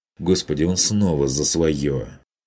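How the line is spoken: Irritated, forced out. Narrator (Russian): Вытолкнул он раздраженно

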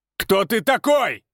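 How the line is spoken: Forced confident shout. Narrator (Russian): прокричал он, стараясь, чтобы голос звучал уверенно

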